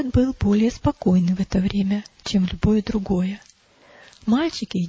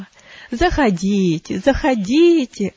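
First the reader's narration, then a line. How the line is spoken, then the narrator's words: Joyful exclaiming. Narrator (Russian): радостно восклицал он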